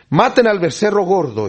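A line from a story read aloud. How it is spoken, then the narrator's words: Exclaiming. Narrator (Spanish): exclama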